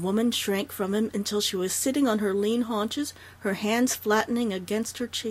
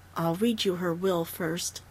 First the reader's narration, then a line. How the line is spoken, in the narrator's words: Dundee said quietly